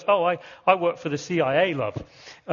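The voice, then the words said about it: Thick East London accent. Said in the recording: “in his thick East London accent”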